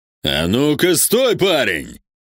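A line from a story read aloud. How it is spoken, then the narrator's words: Roaring. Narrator (Russian): взревел Вектор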